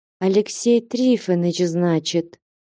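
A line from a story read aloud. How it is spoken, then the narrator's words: Quiet. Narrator (Russian): тихо проговорила Аксинья Захаровна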